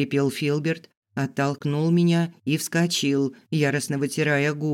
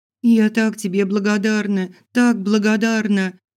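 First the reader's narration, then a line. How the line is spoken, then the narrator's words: Sobbing. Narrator (Russian): всхлипывала я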